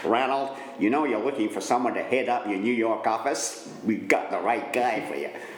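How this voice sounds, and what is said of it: Put-on American accent. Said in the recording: “excuse my American accent”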